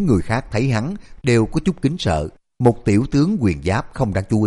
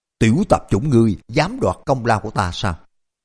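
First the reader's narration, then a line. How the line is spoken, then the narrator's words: Angry scolding shout. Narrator (Vietnamese): Ngân giáp tiểu tướng giận dữ quát mắng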